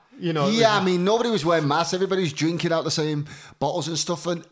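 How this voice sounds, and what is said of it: Strong, hard-to-understand accent. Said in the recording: “I already have a difficult accent.”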